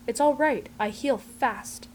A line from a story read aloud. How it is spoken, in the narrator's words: Fraser says in that goddamned completely earnest way of his